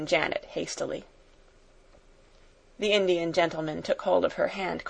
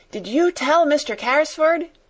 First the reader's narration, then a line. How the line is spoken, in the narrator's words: Donald shouted again